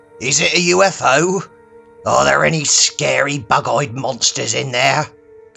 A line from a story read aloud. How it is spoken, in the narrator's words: Gustav bellowed from outside